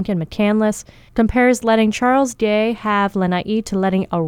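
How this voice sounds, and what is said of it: Usual voice. Nothing is said of it.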